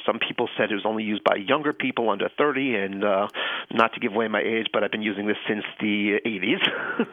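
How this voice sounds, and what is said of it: Mild Long Island New York accent. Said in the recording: “I grew up in Long Island, New York. ... you can hear the accent. ... A little bit, yeah.”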